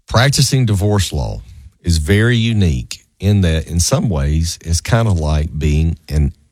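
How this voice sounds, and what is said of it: Southern American accent. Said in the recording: “overlook my Southern accent.”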